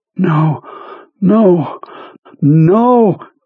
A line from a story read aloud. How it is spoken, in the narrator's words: Jonesy panted, hanging onto the knob with all of his strength